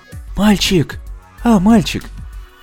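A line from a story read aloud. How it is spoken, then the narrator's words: Whispered call. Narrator (Russian): шепотом позвала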